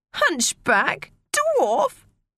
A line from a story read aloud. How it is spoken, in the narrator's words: screamed Maria